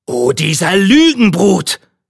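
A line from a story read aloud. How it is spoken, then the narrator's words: Tailor calling out. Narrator (German): rief der Schneider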